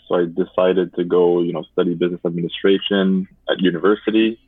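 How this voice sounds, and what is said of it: French accent speaking English. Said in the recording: “I come from a high school that is French speaking. I guess you can tell by my accent”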